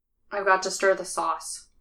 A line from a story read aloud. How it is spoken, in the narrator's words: says flatly